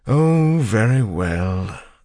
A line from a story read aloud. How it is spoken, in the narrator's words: the suited man said with a sigh